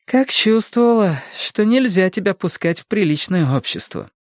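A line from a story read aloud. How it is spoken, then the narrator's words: Sighing with a smirk. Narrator (Russian): вздохнула она с усмешкой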